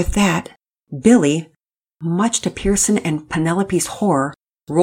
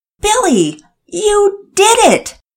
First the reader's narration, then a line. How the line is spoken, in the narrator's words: Daddy Peters nearly shouted